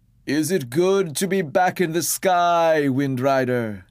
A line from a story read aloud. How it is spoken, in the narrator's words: shouted up